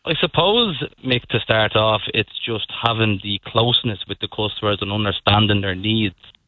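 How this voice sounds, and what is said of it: Dublin Irish accent. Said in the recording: “you can probably hear from my voice, I'm from Dublin.”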